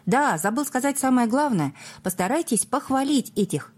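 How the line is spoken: Shouted after someone. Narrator (Russian): редактор крикнул мне вдогонку

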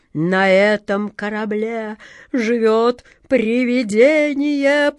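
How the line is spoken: Groaning. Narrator (Russian): простонал длинный Джек

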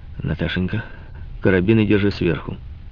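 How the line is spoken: Quiet voice. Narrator (Russian): Тихо сказал

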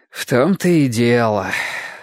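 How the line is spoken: Sighing. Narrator (Russian): вздохнул Ясон

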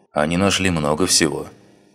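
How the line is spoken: Gloomy reply. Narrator (Russian): мрачно ответил он

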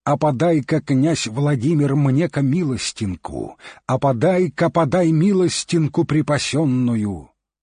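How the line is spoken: Mighty heroic shout. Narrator (Russian): Закричал он криком богатырским

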